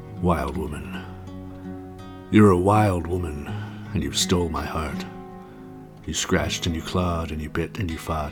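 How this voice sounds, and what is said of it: Deliberately lowered, deeper voice. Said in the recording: “lower my voice ... I'm going to go down to about right here.”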